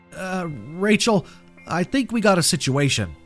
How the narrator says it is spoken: he said, his voice quivering

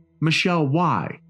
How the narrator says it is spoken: the father cried

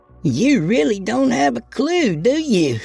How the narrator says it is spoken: She laughed

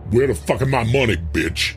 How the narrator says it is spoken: He snarled

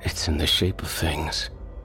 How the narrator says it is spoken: Rob whispered

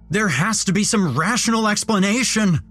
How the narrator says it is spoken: I shouted to myself

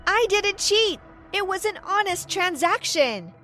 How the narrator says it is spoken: shouted back

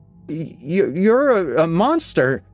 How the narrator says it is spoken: I stammer

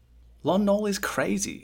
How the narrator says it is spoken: Quill said earnestly

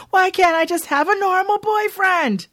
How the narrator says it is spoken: talking to Melvin is frustrating, and she eventually yells at him

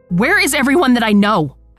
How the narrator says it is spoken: I scream

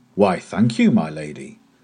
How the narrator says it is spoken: the traveller cried in a surprised voice

